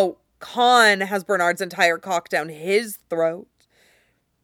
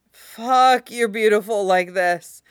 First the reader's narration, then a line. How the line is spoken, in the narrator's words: Bernard groans